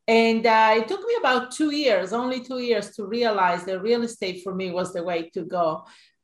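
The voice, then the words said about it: Italian accent. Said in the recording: “I'm sure you will notice my accent. I actually grew up in Italy”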